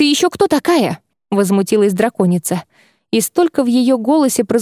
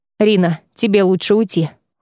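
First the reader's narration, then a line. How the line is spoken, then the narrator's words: Cold. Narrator (Russian): холодно произнес Шайран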